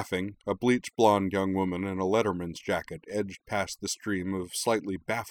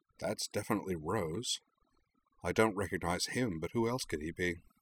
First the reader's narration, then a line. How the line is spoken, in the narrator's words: Rory mused quietly